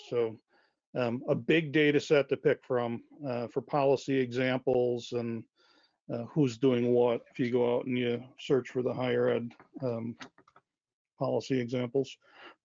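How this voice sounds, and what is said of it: Hoarse, strained voice. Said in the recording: “Losing my voice here”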